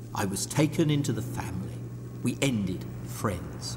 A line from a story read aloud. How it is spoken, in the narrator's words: nursing a massive hangover, he murmured